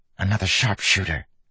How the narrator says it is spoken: hissed

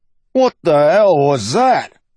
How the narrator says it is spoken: Bowlhead yelled inside

